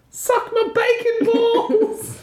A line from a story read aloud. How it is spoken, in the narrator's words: a voice of a pig scream out